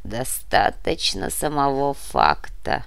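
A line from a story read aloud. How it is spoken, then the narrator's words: Hollow, muffled. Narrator (Russian): глухо произнес повелитель Нави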